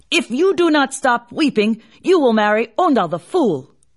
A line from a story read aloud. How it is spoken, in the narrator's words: in a great anger, he shouted